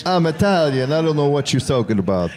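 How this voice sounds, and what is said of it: Fake Italian accent. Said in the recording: “That is such a fake Italian accent. ... authentic Italian dialect”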